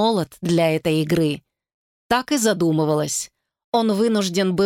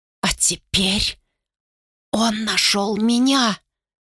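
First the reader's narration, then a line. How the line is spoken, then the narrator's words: Dry, strained voice. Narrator (Russian): Сухим, как пепел, голосом выдавила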